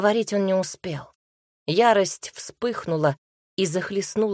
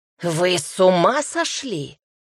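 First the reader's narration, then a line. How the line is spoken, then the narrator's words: Barked. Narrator (Russian): рявкнул Лейк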